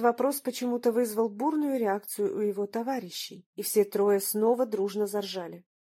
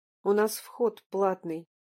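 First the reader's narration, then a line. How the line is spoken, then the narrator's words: Icy cold tone. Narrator (Russian): ледяным тоном сообщил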